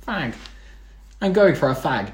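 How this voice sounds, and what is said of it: Attempted English accent, nasal. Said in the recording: “You make me sound really nasal. ... That was me trying to do an English accent. But it's hard to do an accent for one word.”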